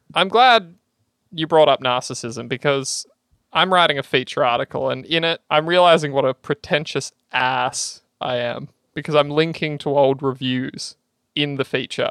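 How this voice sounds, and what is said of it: Australian accent. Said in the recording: “I'm self conscious of the Australian accent. ... Australian that. podcast ... fucking Aussie that's the tone”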